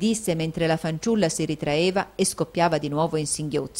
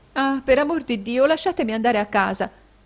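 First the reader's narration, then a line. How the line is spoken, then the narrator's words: Exclamation. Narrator (Italian): esclamò Caterina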